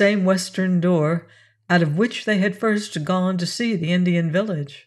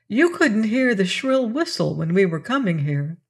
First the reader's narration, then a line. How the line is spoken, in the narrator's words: Arthur exclaimed suddenly